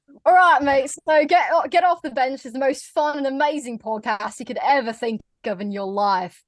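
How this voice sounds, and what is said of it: Australian accent with some British. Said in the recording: “That's not bad. That's not bad. I noticed that Americans tend to put a little bit of British in with our Aussie accent”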